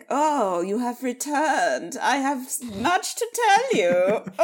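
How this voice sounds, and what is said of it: Affected accent, character voice. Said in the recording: “speaking in this affected accent”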